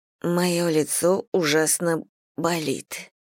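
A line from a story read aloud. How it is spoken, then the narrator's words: Whispering. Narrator (Russian): прошептала Мэгги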